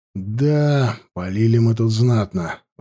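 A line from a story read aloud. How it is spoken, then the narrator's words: Sighing. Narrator (Russian): вздохнул я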